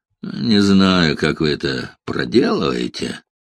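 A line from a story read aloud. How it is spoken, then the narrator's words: Grumble. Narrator (Russian): буркнул он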